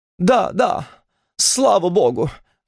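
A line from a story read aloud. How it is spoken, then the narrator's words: Sobbing woman. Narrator (Russian): всхлипнула мадам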